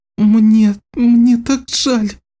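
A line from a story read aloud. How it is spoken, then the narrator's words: Choking on sobs. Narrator (Russian): Саманта задыхалась от рыданий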